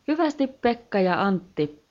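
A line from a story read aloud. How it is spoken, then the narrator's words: Sudden smooth female voice exclaiming. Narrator (Finnish): huudahti yhtäkkiä sulava naisääni ilmasta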